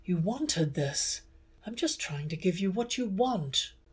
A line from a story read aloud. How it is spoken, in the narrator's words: Some part of him had been coming unravelled, with something like confusion on his face, he'd breathed